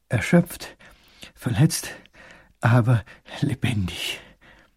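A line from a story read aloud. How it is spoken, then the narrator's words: Panting, small voice. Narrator (German): keucht der kleine Großherzog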